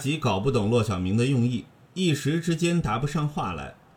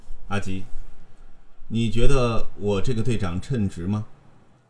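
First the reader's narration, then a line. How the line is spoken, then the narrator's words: Sighing, hesitant. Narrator (Chinese): 骆小明叹一口气，顿了一顿说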